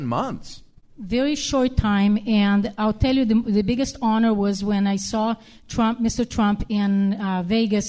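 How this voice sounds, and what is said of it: Speaks with a foreign accent. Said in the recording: “me with my accent”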